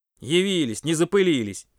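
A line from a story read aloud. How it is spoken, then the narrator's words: Grumbling. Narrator (Russian): проворчал Паша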